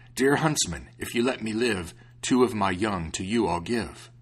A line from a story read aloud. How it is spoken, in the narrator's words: a wolf, he cried out